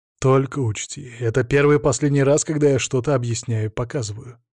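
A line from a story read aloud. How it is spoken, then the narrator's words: Calm. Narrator (Russian): спокойно объяснил я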